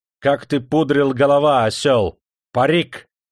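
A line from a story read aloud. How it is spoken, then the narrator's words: Angry shouting. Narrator (Russian): багровее кричал он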